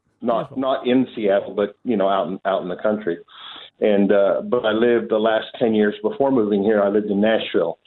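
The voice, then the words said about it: American accent. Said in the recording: “As you can tell, I'm from America by the accent.”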